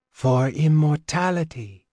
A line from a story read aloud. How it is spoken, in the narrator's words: the Kakari breathed